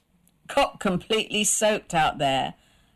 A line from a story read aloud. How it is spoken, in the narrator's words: laughed her husband